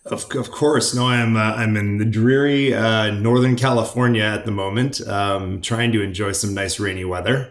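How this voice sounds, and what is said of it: Accent not from Portsmouth. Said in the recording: “judging by the accent, you're not based in Portsmouth”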